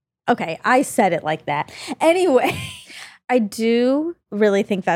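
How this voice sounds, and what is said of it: Usual voice. Nothing is said of it.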